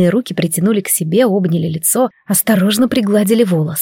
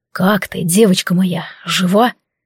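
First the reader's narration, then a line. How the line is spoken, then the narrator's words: Hoarse, sweet, tender. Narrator (Russian): Голос хриплый, сладостный, полный сокровенной нежности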